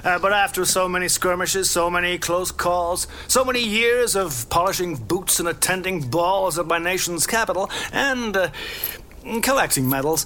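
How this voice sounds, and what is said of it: American accent. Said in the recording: “Colonel, you served in the American Army ... My accent gave me away.”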